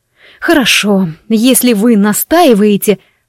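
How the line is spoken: Said through teeth. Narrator (Russian): процедила я, глубоко вздохнула

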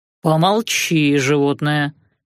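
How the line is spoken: Dismissive snort. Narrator (Russian): фыркнул Артемидор

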